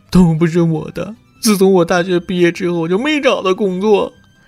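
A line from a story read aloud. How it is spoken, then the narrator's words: Crying graduate. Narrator (Chinese): 大学毕业生哭着说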